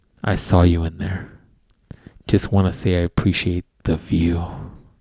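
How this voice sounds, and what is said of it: Creepy voice. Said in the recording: “let me get my creepy voice on.”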